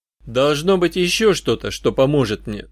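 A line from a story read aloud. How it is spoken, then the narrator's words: Plain. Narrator (Russian): сказал я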